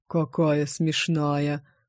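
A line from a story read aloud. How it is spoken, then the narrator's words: Deep bass voice. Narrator (Russian): пробасил он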